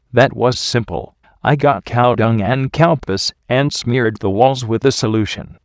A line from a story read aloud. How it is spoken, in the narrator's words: she replied